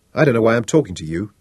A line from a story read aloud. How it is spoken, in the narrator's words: chuckled despite himself